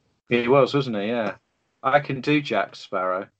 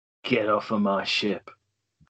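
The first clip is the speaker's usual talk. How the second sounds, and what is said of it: Weak Jack Sparrow pirate accent. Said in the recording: “I can do Jack Sparrow, but I can do the accent. ... It just sounded slightly like you.”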